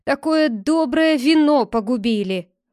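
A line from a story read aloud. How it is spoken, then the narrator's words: Grumbling. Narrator (Russian): ворчал Фриар Тук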